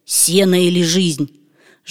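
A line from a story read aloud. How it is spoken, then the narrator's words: Hoarse rasp. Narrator (Russian): прохрипел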